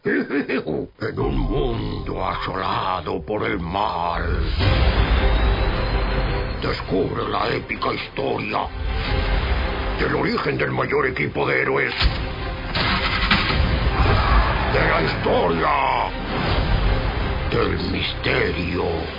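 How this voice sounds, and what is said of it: Dramatic movie trailer narrator voice. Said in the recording (Spanish): “¿Puedes poner la voz de los tráileres? ... ¡Lo has clavado!”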